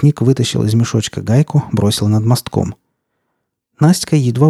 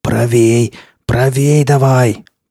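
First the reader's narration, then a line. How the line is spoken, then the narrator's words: Hoarse rasp. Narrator (Russian): прохрипел лесник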